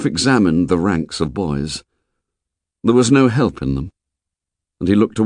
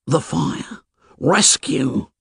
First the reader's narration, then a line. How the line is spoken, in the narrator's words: Piggy whispered